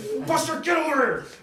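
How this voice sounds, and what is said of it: Angry shouting. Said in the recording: “And I was screaming at him ... with my tone of voice”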